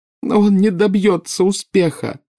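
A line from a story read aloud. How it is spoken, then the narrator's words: Sobbing. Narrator (Russian): рыдала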